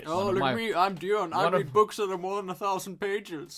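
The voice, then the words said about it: Imitates another person's voice. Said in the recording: “that was me doing an impression of Dion, not Dion just actually saying that ... You even had me fooled ... if I could not see Dion right in front of me right now, I would have bought it.”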